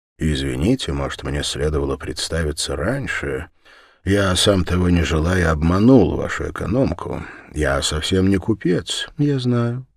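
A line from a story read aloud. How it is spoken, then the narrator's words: Very calm. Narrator (Russian): очень спокойно сказала она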